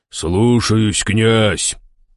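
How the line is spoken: Deep male voice. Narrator (Russian): пробасил мужчина в черном балахоне

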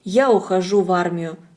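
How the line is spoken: Plain. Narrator (Russian): сказал он

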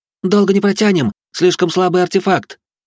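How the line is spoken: Shouted. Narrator (Russian): Фатия крикнула

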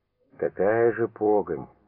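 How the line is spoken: Muttering. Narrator (Russian): пробормотал Бурмакин

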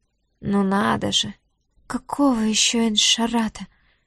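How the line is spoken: Strained, slurred, anxious. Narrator (Russian): Через силу выдавила из себя Диара, с трудом шевеля языком, с беспокойством

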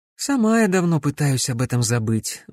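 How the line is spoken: Sigh. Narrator (Russian): вздохнула девушка

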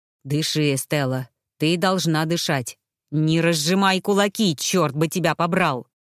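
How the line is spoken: Growling into face. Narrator (Russian): Мануэль рычал мне прямо в лицо

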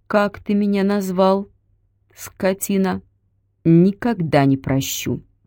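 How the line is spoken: Slow, menacing. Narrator (Russian): Бабушка медленно проговорила

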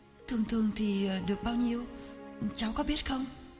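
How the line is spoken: Hesitant. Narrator (Vietnamese): Hằng ngập ngừng

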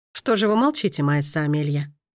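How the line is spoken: Mocking question. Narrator (Russian): спросил насмешливо

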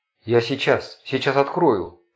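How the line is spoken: Sickly wheeze. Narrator (Russian): Позеленев просипел Влад

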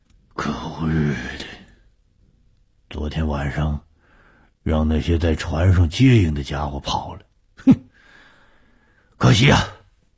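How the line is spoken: Grumbling mutter. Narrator (Chinese): 武刚嘟囔着说

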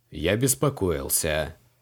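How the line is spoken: Reluctant grumble. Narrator (Russian): неохотно проворчал креол

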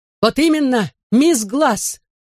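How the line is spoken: Shouting. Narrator (Russian): выкрикнула она

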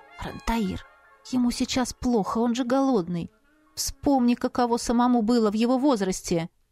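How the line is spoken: Whisper. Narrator (Russian): я прошептала

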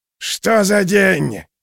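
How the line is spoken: Wailing. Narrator (Russian): вопил мотыль

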